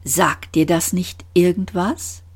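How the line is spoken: Calm voice. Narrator (German): Trillian sagte mit ruhiger Stimme

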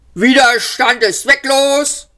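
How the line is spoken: Guard bellowing. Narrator (German): brüllte der Wachtposten

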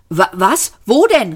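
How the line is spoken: Exclaimed. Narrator (German): rief Arthur

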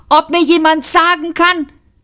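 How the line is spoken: Shouting. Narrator (German): schrie Trillian

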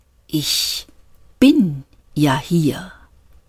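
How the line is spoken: Slow voice. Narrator (German): sagte die Stimme langsam

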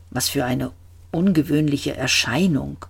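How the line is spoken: Murmured. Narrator (German): murmelte

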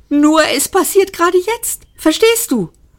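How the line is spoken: Excited probing. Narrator (German): bohrte Seyfert aufgeregt nach

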